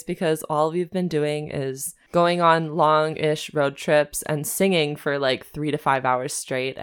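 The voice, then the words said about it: Strained, worn-out voice. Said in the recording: “I'm like losing my voice ... pardon my disgusting voice today”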